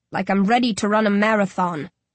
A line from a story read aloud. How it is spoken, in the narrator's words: I growl